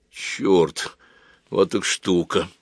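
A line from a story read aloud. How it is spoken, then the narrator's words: Muttering. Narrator (Russian): пробормотал Женя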